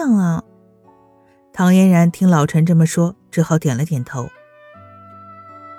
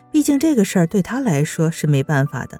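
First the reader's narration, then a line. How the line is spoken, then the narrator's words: Laughing question. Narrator (Chinese): 老陈笑着问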